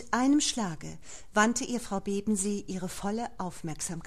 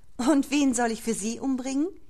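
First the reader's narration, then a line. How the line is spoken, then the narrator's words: Laughing woman. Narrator (German): sagte sie lachend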